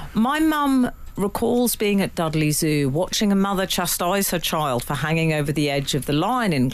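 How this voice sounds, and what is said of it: Usual voice. Nothing is said of it.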